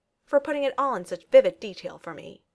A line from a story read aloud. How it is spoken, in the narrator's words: Tony replied, lips curled in a sneer